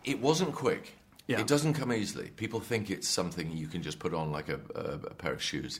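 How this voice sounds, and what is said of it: British accent. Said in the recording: “The accent, the British accent, is absolutely spot on.”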